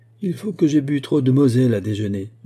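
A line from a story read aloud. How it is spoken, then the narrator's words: Laughing. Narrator (French): dit-il en riant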